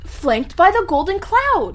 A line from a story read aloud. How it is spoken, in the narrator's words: Gillian cried